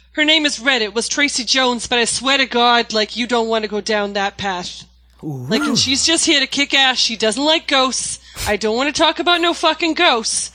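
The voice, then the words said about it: 1930s Boston gangster accent. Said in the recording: “a 1930s gangster named Red from Boston ... the accent”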